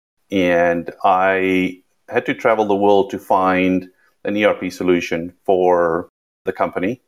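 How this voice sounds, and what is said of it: South African accent, slightly Americanized. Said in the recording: “You can hear by the accent, I'm South African. It's been Americanized a little bit, and it has a little bit of twist of British in there”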